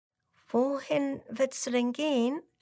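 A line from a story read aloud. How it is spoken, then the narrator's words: Hesitant question. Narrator (German): fragt Lara zögernd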